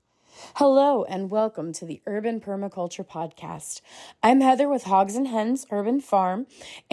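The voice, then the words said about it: Voice sounds a little different. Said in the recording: “my voice sounds a little different, and that is an unfortunate lingering effect of my having the influenza ... my throat and parts of my lungs are inflamed from all of the coughing”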